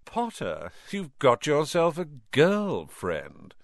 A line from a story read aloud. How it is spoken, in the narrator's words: drawled Malfoy